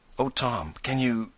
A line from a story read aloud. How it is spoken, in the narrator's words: and Ned faltered